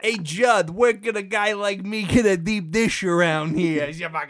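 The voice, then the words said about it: Unconvincing put-on Chicago accent. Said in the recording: “That's not a Chicago accent at all.”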